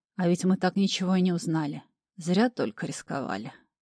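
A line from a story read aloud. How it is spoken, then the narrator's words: Upset sigh. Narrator (Russian): расстроенно вздохнул барон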